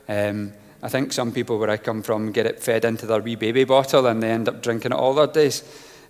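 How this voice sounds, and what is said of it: Scottish accent. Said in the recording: “My accent deceives me. I'm from Scotland”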